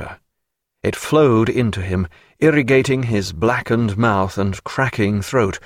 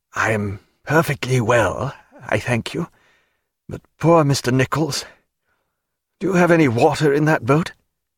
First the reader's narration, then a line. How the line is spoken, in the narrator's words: in a low croak he said